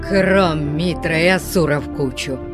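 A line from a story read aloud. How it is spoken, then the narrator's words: Growling barbarian. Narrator (Russian): прорычал варвар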